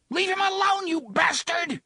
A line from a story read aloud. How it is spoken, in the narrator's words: Jake screamed